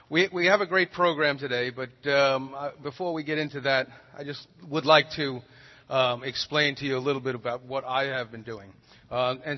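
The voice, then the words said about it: Slight regional accent. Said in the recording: “this little accent that everybody tells me I have”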